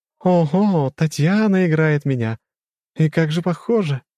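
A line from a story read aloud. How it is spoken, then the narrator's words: Pleased giggling. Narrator (Russian): хихикает довольная богиня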